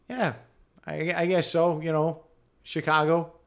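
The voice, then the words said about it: Put-on Chicago accent. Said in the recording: “I just do a guy with a Chicago accent.”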